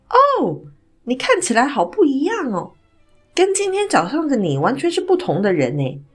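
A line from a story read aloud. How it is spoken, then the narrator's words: Smiling. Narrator (Chinese): 黑人老兄呢，他对着我笑着说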